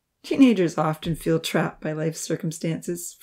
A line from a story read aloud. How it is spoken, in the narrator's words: Farouk chuckled